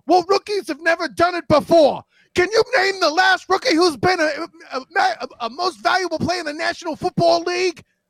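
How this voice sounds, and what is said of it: Imitates another person's voice. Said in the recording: “I appreciated the Stephen A. impersonation.”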